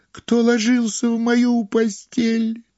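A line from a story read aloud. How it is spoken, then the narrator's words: Terrified shriek. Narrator (Russian): он завизжал так, как будто его режут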